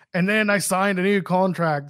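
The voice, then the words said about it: Bad imitation of another person's accent. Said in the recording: “I don't know why I can't do his accent. That was awful. I'm sorry. It's really bad.”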